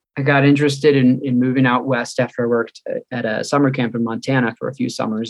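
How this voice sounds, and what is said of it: Slight Chicago-area accent. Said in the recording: “You might notice a little bit of an accent. I'm from Chicago suburbs.”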